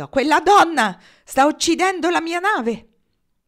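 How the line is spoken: Shouted. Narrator (Italian): Pollock gridò

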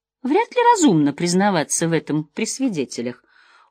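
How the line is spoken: Cold smirking. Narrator (Russian): холодно усмехнулась я

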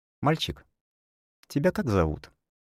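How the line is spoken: Creepily gentle man's question. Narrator (Russian): спросил дядька так ласково, что даже мне жутковато стало

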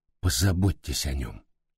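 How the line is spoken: Strained, choked voice. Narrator (Russian): сдавленным голосом произнес

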